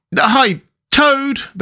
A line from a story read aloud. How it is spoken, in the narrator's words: they cried